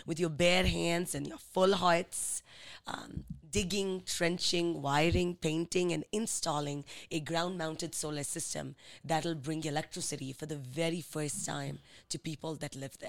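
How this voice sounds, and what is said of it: Indian English accent. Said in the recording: “When are you going to drop the accent ... I've been out of India since 2008 ... I haven't been able to take the accent out of me yet”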